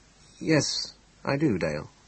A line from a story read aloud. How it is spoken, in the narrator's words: he said quietly